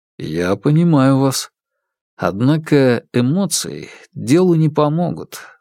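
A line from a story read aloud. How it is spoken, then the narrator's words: Calm. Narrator (Russian): спокойно проговорил Фан Му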